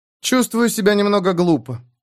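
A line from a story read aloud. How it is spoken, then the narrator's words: Sighing. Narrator (Russian): она вздохнула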